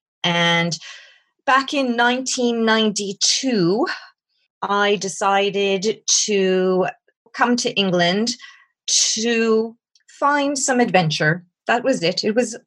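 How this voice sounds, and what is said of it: North American accent. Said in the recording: “I have a North American accent.”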